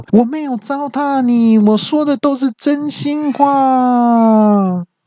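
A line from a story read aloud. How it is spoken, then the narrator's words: Defiant loud reply. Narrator (Chinese): 那语音就也不甘示弱，就大声的回说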